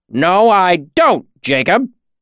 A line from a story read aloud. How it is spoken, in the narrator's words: Cobb snapped